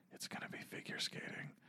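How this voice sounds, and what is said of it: Whispering. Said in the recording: “You guys are whispering? I can't hear you.”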